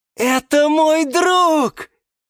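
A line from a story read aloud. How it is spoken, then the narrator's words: Exclaimed. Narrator (Russian): воскликнул Гиацинт Василий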